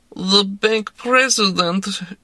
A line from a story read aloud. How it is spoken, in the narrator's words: said mournfully